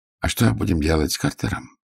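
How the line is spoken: Quiet question. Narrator (Russian): негромко спросил Гонзолин

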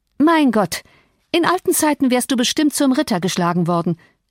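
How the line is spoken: Calling out. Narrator (German): rief Catherine

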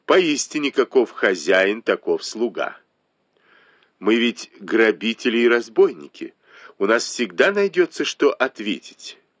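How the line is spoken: Cold smirk. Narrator (Russian): холодно усмехнулась Танчунь

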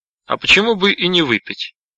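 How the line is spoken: Sharp question. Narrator (Russian): резко спросил Кеннеди

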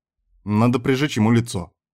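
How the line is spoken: Offended. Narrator (Russian): в итоге сказал Кастер, обиженно

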